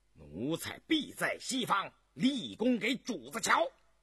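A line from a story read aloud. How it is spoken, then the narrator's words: Loud reply. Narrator (Chinese): 大声答应道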